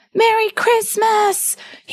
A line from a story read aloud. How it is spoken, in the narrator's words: he shouted